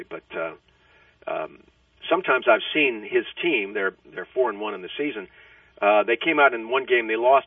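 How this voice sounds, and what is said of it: Hoarse voice. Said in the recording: “I'm a little hoarse as I talk to you ... screaming at one of his games, cheering”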